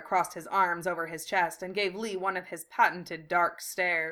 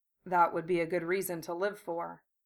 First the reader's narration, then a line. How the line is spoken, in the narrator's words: Gara said softly